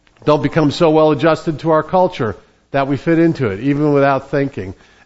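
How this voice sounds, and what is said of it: New Jersey accent. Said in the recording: “I'm from New Jersey, and my accent usually betrays me”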